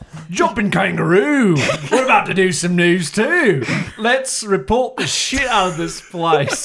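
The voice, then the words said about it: Exaggerated thick Australian accent. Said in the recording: “in his unusually yes. thick, to the point of absurdity, Australian accent.”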